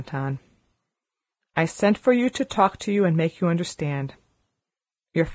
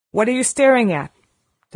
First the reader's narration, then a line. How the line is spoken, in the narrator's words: demanded Miss Minchin sharply